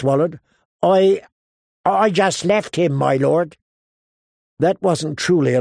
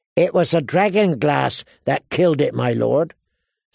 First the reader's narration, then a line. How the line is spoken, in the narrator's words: Sam explained feebly